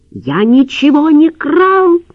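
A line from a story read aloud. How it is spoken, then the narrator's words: Shouted. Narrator (Russian): крикнул Лавровский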